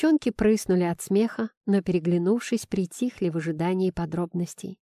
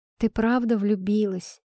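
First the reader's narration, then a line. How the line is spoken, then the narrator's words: Insinuating question. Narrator (Russian): вкрадчиво поинтересовалась София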